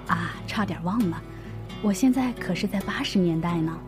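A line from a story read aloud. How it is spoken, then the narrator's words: Low muttering. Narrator (Chinese): 男子低声嘀咕了一句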